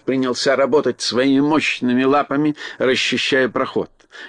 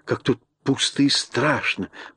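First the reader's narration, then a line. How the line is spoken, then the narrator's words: Whispered. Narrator (Russian): прошептала она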